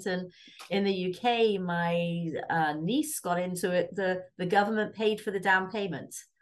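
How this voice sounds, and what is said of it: English accent. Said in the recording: “this very English accent”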